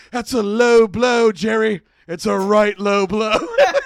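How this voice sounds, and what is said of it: Breathless put-on British accent. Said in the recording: “he talks in his voice like this, and this is his British accent, and it's out of breath.”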